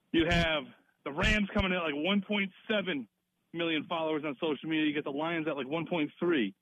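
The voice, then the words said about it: Out of breath while walking. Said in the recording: “I'm out of breath, doing live research on the street”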